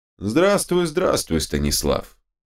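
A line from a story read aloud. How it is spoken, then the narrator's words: Flat colorless reply. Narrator (Russian): бесцветным голосом откликнулся Молчун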